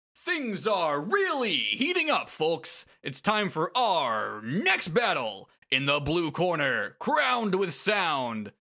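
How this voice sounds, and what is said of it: Energetic announcer voice. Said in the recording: “announcer voice”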